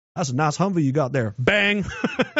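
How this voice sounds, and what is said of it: Put-on Texas accent. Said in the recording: “I can do a fucking Texas accent, man. I'm from Dallas, Fort Worth. I'm from DFW.”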